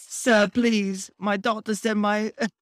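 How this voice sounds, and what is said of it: Attempted French accent sounding British. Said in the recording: “Why are they British? Whatever. I can't do a French accent.”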